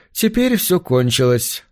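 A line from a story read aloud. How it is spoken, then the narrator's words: Sad. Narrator (Russian): промолвил Джулиан печально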